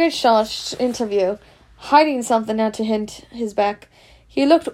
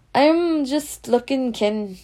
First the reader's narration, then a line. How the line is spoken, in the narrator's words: said, in a shifty voice